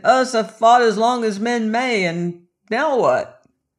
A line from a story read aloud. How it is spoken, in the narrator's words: they shouted